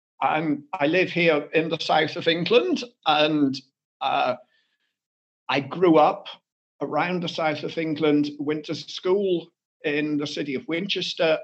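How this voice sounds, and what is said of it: English accent. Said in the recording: “as you maybe can guess from the accent, I'm English.”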